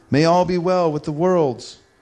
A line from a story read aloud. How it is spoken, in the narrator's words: the gods themselves became fearful and cried out